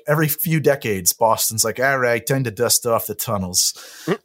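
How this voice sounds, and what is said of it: Poor put-on Boston accent. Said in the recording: “Was that your Boston accent? ... it was a terrible Boston. That was Boston by way of the Upper East Side.”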